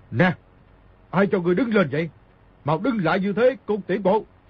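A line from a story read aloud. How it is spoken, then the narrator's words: Barked command. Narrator (Vietnamese): Hải Lão Công quát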